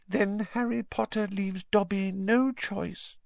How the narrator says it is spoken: said the elf sadly

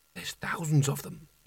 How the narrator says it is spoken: he whispered, his voice being sucked away and silenced by the massed ranks of books

